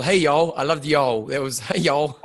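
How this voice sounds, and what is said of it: Put-on Texan accent. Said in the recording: “Being from Texas ... heavy accent like that”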